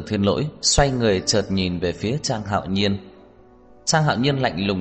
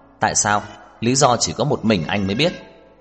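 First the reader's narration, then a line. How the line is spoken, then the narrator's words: Cold. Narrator (Vietnamese): Trang Hạo Nhiên lạnh lùng nói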